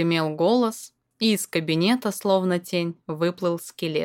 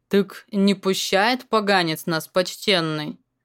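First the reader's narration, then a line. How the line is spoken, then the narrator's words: Nasal grumble. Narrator (Russian): Проворчал гнусава гмур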